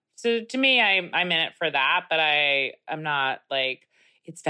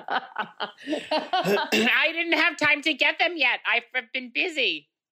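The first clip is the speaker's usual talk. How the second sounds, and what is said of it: Very high, sharp, snappy voice. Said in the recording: “in my other voice. It's very high. ... A little sharp, a little snappy.”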